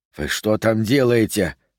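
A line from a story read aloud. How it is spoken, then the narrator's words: Hiss. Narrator (Russian): прошипел он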